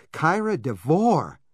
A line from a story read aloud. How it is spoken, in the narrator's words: cried apprehensively